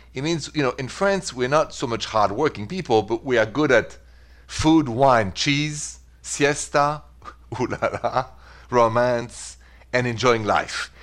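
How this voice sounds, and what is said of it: French accent. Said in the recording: “from my accent, I'm French, straight from Paris ... But the accent is French”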